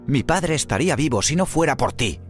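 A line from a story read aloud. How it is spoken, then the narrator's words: Shouting. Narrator (Spanish): gritó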